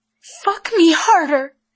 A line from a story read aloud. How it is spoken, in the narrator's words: she cried